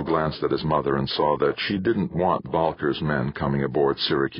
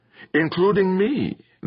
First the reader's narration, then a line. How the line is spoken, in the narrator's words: acknowledged, laughing